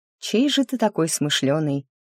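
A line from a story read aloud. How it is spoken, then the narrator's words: Purring, affectionate. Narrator (Russian): промурлыкала я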